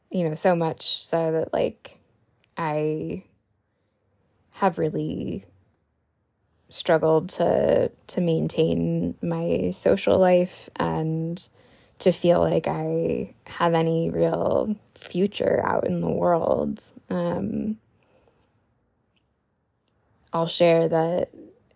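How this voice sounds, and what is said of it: Tired, slightly rambling voice. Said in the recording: “I'm really tired right now. You can probably tell from my voice and how maybe slightly rambly I am this episode.”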